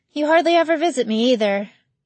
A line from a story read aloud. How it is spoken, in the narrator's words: Bree sighed